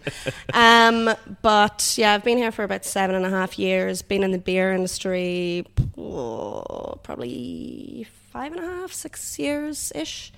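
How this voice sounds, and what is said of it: Mixed Irish and North American accent. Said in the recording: “I am Irish, not Canadian or American, as most people think ... I think I'm a bit of a mutt accent.”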